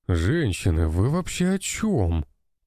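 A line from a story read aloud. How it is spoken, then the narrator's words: Strained, squashed groan. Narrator (Russian): простонал я, которого почти раздавили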